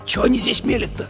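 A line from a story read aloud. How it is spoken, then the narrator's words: Surprised whisper. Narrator (Russian): шепотом удивился Давид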